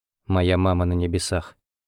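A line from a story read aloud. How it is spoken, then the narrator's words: Sad. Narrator (Russian): добавил он печально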